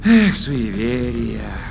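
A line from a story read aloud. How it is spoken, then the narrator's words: Peaceful sigh. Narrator (Russian): умиротворенно вздохнул Вур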